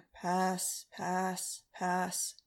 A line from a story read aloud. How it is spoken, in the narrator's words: in a bored voice